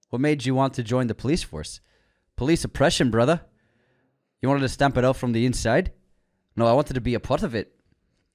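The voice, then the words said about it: Put-on Scottish accent. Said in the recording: “It's my Scottish accent. It's Scottish.”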